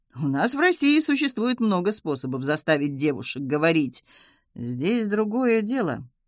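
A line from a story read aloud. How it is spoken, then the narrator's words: Gloomy reply, German man. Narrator (Russian): мрачно ответил немец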